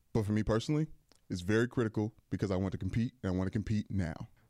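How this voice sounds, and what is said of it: Imitates another person's voice. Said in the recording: “What's a good LeBron voice? How do you do a LeBron voice? ... So that was LeBron James.”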